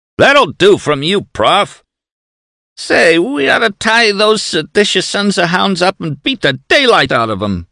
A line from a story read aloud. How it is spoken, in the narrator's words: whimpered one of the watchdogs